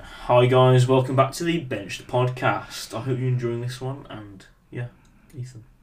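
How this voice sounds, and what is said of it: Put-on radio presenter voice. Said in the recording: “radio voice ... some BBC Radio 1”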